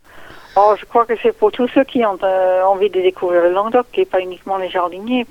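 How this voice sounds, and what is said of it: Canadian French accent. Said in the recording (French): “vous entendez bien mon accent, je suis pas d'ici... je suis canadienne d'origine”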